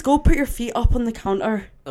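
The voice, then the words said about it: Good put-on Irish accent. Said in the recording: “Oh, that was a good Irish accent, actually.”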